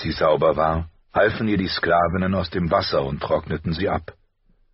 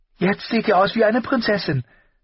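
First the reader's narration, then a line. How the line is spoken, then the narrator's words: Breathless girl. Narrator (German): stellte das Mädchen atemlos fest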